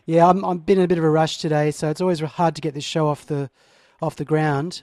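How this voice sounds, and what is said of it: Hoarse, failing voice. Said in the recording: “Sorry, I can't speak. I'm losing my voice.”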